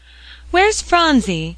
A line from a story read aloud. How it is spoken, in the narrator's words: cried Polly, rushing into Mother Fisher's room